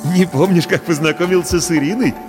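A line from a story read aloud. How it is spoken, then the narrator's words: Forced laugh. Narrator (Russian): делано рассмеялся Паша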